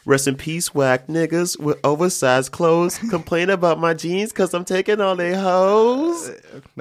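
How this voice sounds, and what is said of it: Imitates another person's voice. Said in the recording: “that was a very good Danny impression.”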